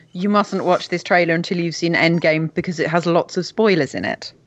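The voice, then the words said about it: Imitates another person's British voice. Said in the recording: “You got to do the accent. ... the token Brit ... Sounds just like him. ... Terrible.”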